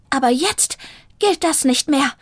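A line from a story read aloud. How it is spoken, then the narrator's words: Hiss. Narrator (German): fauchte Zelda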